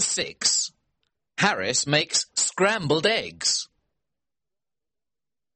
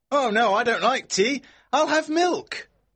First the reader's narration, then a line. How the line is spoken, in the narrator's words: George shouts back